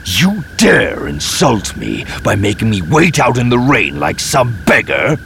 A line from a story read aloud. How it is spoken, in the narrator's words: He spat at the screen